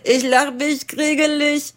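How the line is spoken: Croaking. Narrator (German): krächzte ein rosa-grün gestreifter

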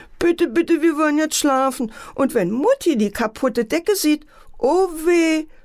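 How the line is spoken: Sobbing. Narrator (German): schluchzte Antje

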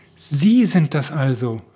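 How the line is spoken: Call. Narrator (German): rief er

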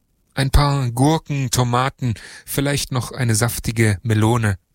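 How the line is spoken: Plain. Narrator (German): sagte

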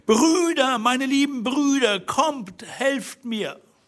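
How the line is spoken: Shouting as loud as possible. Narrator (German): rief so laut sie konnte zum Fenster hinaus

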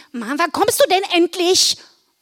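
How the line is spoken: Call out. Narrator (German): rief sie

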